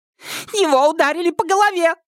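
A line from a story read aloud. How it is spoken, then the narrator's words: Girl's shriek. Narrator (Russian): взвизгнула девушка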